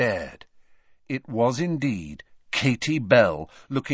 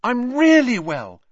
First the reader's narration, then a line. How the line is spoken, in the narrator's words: she said happily